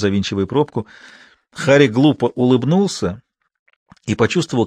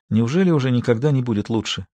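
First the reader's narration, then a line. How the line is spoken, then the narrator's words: Quiet question. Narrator (Russian): тихо спросила Мартина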